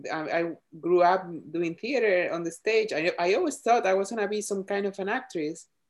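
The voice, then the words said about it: Speaks English with an accent. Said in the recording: “i had to like really embrace my accent by then right because i'm not gonna take it off me”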